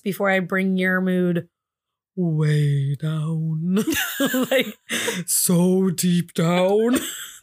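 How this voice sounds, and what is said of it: Deliberately deep voice. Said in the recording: “That's my deep voice. ... my deep voice is really good”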